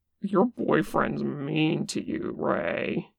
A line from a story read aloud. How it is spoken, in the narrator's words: he calls over lazily